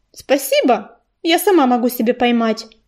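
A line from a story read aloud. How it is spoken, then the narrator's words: Dry reply. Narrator (Russian): сухо ответила рыженькая кошка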